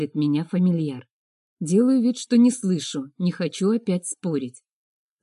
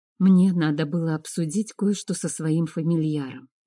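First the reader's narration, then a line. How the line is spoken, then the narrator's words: Quiet. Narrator (Russian): говорю я тихо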